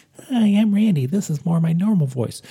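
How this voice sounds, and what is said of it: Drops the low put-on voice. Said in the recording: “sort of doing a voice, my normal voice ... if I were to drop the sort of like my Randy Chardonnay voice, my normal voice is much more like this ... keep it this sort of like, this lower sort of ... extremely sexy voice I do”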